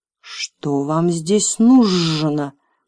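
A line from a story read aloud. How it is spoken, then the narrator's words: Furious hoarse rasp. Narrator (Russian): прохрипела драконица вне себя от ярости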